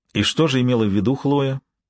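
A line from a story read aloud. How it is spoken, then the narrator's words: Even-voiced question. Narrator (Russian): ровным голосом спросил я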